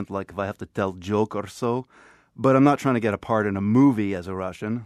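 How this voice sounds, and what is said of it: Passable put-on Russian accent. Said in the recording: “I can do sort of passable Russian accent”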